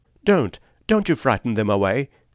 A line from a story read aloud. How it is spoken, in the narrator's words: cried someone on deck disconsolately